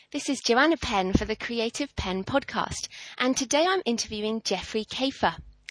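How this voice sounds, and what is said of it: Australian accent tinged with British. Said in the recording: “your Australian accent is actually the best... The Australian accent... Mine's kind of tinged with British.”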